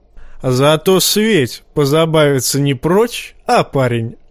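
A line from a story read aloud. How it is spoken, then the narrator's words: Short laugh. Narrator (Russian): хохотнул Тормунд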